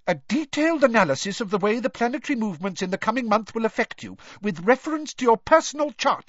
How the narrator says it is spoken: she snapped, sounding much more like Professor McGonagall than her usual airy-fairy self

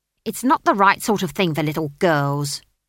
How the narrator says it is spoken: snapped the barman's wife

